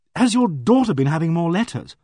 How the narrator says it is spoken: I said desperately

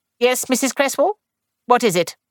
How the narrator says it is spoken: she said sharply

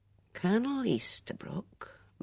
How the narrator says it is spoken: murmured Craddock

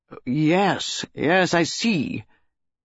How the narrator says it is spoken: he asked sharply

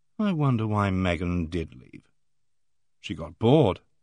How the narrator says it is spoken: Joanna murmured

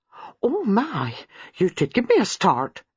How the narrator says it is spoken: exclaimed

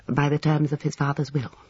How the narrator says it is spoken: said the lawyer dryly

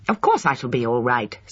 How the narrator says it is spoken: snapped Lucy

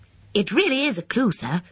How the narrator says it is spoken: said Stoddart West eagerly

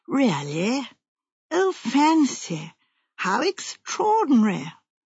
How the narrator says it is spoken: Jane murmured at discreet intervals

